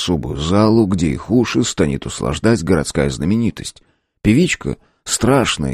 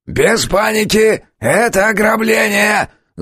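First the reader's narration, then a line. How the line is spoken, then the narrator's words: Loud yell. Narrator (Russian): Заорал один из них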